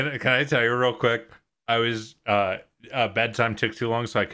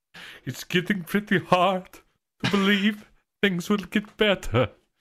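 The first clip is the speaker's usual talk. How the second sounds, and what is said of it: Impression of a musical character. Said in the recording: “that is a great impression.”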